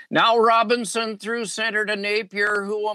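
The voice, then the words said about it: Imitates a hockey play-by-play announcer. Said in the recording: “Doc can do a pretty good imitation of Danny Gallivan ... give us a little touch of Danny Gallivan”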